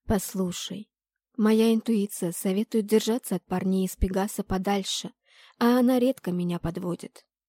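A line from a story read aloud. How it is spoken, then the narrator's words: Hypnotic tone. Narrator (Russian): гипнотическим тоном сказала я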